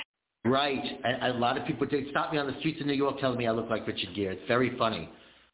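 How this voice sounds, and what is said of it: New York accent. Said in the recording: “You still got that New York accent, too.”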